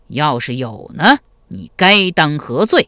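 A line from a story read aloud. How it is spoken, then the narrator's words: Cold question. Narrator (Chinese): 赵匡胤冷声问道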